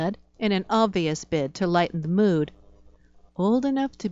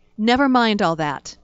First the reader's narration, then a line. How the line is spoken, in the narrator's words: I snapped